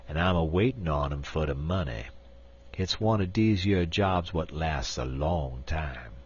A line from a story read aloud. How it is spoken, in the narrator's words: responded Uncle Remus grimly